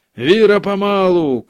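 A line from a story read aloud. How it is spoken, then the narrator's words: Shouted. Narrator (Russian): крикнул Караваев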